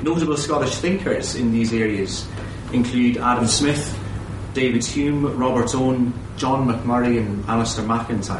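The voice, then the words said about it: Irish accent, from Waterford. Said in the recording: “You're probably listening to my accent wondering, where you can't quite place that ... I'm from a little place called Waterford. It's on the southeast coast of Ireland.”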